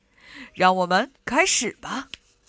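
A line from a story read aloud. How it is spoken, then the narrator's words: Smiling. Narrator (Chinese): 圣诞老人笑着说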